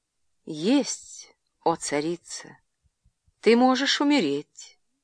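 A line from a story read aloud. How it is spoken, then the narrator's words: Quiet. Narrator (Russian): тихо произнесла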